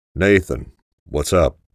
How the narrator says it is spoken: said in a clipped tone

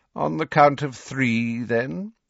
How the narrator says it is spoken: said Snape lazily

